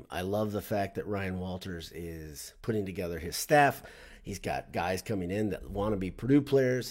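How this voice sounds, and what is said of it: Voice sounds a little funny. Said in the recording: “My voice is a little funny because I was in Mackey Arena last night”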